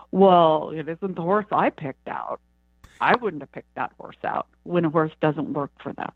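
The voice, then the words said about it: Put-on horse trainer's accent. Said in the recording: “In that accent that you did, that's exactly how the trainers will talk.”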